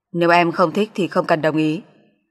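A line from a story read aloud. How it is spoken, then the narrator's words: Cold. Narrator (Vietnamese): An Thực lạnh lùng nói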